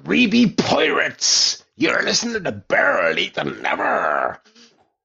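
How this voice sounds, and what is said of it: Pirate voice in Northern Irish accent. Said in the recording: “I've got a pirate thing in Northern Ireland accent.”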